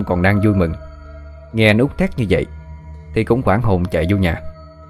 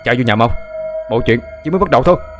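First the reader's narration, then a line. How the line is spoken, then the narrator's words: Urgent loud shout. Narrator (Vietnamese): Anh Út vội hét lớn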